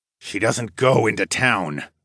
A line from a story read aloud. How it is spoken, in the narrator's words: Darwin muttered